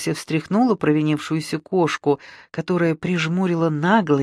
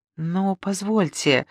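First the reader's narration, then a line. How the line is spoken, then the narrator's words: Confused embarrassed mutter. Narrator (Russian): растерянно пробормотал Челдонов, заливаясь краской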